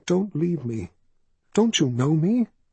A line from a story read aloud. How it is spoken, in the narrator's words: his mother breathed